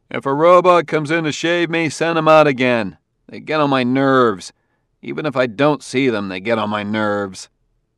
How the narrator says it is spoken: He shouted

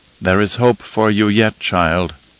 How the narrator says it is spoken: Mohiam murmured

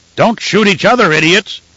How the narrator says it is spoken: Griu bellowed in a voice like an avalanche

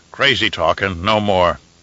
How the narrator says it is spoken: grumbled Jareth

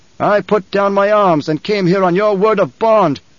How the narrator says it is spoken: the Emperor shouted

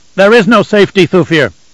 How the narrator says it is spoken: Leto shouted back

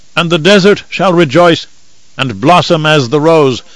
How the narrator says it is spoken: one old man cried out

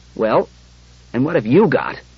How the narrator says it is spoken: Bailey asked gruffly

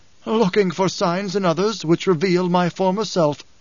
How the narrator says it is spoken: the Gola laughed, said

